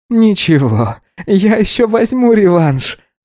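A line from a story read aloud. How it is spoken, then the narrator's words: Laughing. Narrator (Russian): засмеялся Гидеон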